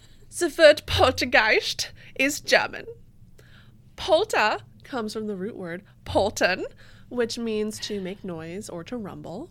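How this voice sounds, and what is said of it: Put-on German accent. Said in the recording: “I feel like I should be doing this in a German accent.”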